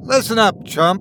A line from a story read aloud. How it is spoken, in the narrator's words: Nick shouted